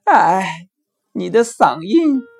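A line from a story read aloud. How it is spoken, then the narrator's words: Fox sighing. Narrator (Chinese): 可是狐狸却叹了一口气说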